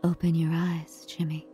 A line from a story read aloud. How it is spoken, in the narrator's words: Green whispers